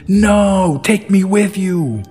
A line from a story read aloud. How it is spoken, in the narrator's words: The kid immediately shouted